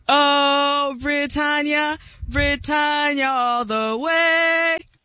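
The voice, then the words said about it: Limited put-on British accent, singing. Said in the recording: “The only thing that's more limited is her British accent.”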